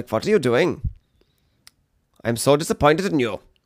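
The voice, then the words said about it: Put-on German-style accent. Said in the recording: “the Iceland accent is very, I can't really do it myself. I'm just doing German.”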